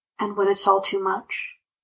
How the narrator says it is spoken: Bond whispers

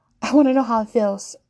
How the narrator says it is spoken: blurts out without control

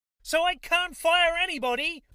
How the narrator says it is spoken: Judith shrieked incredulously

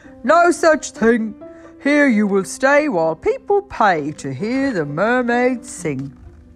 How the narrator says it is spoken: he laughed and shook his head and he told her

